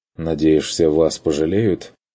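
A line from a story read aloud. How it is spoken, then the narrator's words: Grumbled. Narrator (Russian): буркнул Курт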